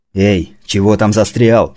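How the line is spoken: Shout. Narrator (Russian): крикнул он Фазе

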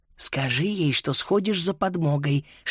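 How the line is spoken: Whispered. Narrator (Russian): шепнула Фрида

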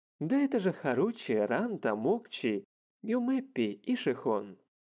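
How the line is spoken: Exclaiming. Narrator (Russian): Воскликнул

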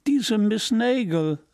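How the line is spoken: Speaking with laughter. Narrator (German): sagen und lachen

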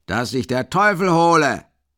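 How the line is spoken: Enraged roar. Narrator (German): brüllt der rasende Mikolka

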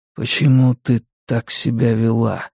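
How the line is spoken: Quiet question. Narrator (Russian): спросил тихо

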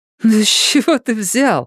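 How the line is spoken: Laughing, covering embarrassment. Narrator (Russian): засмеялась она, пытаясь скрыть замешательство

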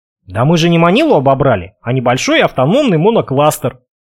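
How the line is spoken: Snort. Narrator (Russian): хмыкнул

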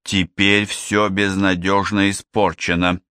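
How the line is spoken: Angry voice. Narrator (Russian): злобно произнесла она

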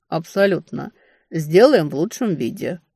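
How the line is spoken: Wry snort. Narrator (Russian): хмыкнул Астериус

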